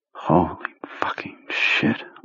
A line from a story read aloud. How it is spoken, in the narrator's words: Owen Underhill whispered